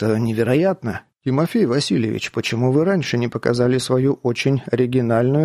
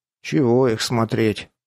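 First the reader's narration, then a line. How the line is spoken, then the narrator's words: Gloomy. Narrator (Russian): мрачно произнес Крепыш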